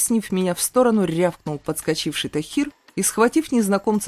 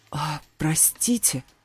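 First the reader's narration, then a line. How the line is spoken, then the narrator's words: Man's hoarse rasp. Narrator (Russian): Прохрипел мужчина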